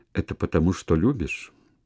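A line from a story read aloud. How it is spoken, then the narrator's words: Very quiet question. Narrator (Russian): она спросила тихо-тихо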